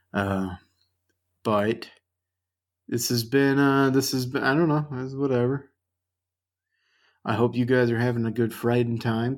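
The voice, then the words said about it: Strained, fading voice. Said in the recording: “I'm losing my voice now because I've talked for 55 minutes straight.”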